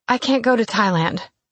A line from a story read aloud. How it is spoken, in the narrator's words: I blurted out